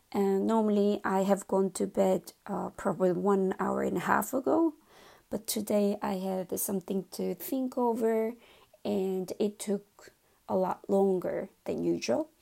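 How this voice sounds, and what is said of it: Low, late-night voice. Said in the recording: “my voice is a little bit low because it's 23:45 at this moment in the evening”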